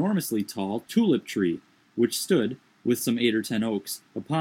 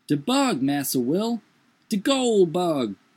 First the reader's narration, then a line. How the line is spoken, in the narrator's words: cried the negro, drawing back in dismay